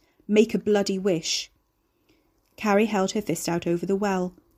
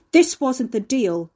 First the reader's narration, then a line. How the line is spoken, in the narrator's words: Ricky yelled